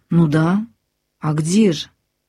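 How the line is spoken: Slow reply. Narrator (Russian): медленно отвечает она

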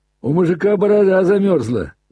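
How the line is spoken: Loud, provocative shout. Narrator (Russian): громко и задирчиво крикнул Коля

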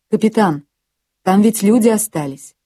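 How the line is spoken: Agitated voice. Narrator (Russian): взволнованным голосом сказал Юс

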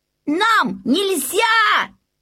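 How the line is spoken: Shouting in unison. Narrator (Russian): закричали вместе Окке и Бенгт

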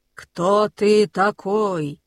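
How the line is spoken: Booming. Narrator (Russian): прогремел бронзовый

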